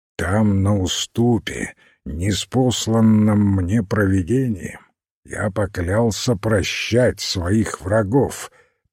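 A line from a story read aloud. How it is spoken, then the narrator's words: Solemn. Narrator (Russian): торжественно произнес Уайз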